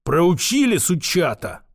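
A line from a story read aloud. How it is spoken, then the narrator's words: Hissing merchant. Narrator (Russian): прошипел купец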